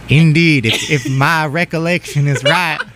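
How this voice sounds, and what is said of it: Put-on country accent. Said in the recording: “This is now me breaking the accent. ... Not our country accents.”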